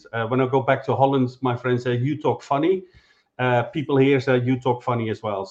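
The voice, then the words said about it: Mixed Dutch and Scottish accent. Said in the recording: “This is not a Scottish accent. This is a combination of a Dutch and Scottish accent.”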